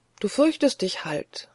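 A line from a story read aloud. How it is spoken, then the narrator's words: Soft, barely audible murmur. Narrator (German): sagte leise, und dann vor sich hin, kaum vernehmlich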